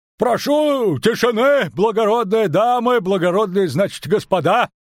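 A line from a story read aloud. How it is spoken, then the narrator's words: Shout. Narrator (Russian): крикнул Дроухард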